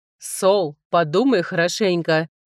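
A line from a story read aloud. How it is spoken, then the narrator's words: Wry snort. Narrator (Russian): хмыкнул Генрих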